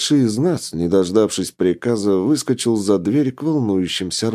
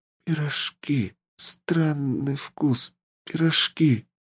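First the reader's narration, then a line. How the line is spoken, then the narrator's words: Whisper. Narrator (Russian): прошептал мальчик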